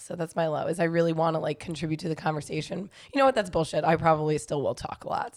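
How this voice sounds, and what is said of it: Strained voice. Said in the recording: “I feel like my voice is strained ... it just sounds so horrible”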